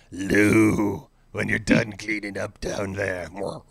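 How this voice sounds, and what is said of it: Imitates another person's voice. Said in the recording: “my Ailes impression”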